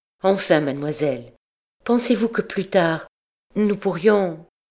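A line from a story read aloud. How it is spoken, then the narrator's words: Trembling voice. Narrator (French): Elle hésita une seconde, puis d'une voix tremblante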